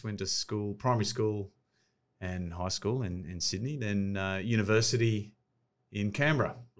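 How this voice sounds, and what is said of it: Australian accent. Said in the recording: “obviously you're Australian. I can pick that up from the accent.”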